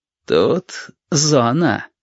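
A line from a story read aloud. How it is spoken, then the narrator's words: Ingratiating, insinuating. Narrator (Russian): вкрадчиво объяснил капитан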